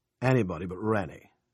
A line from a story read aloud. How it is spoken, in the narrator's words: Ernie growled